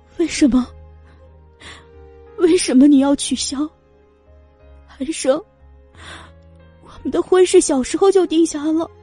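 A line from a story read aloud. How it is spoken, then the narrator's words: Trembling question. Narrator (Chinese): 颤声的问道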